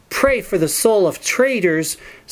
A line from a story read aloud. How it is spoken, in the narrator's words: spat out Morgant